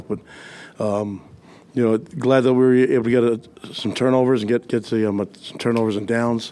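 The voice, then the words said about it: Hoarse, strained voice. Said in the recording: “you can tell I lost my voice a little bit”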